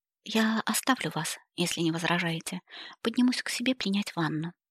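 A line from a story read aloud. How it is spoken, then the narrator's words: Quiet speech. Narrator (Russian): тихо проговорила Элли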